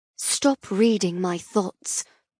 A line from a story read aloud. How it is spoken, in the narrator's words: I hiss at him